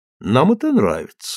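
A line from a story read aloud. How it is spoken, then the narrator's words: Calm reply. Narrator (Russian): спокойно отвечала миссис Тьюн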